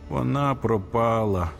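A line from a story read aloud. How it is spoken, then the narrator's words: Groan. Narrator (Ukrainian): застогнав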